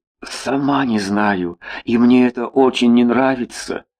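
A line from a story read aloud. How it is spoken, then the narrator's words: Barely audible whisper. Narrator (Russian): едва слышно прошептала Устинья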